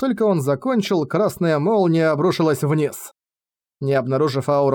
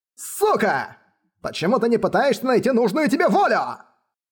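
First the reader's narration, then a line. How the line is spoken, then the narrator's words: Furious roar. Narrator (Russian): Взбешенно взревел попугай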